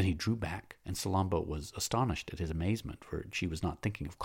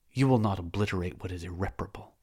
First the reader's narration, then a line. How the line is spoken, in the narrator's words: exclaimed Salambo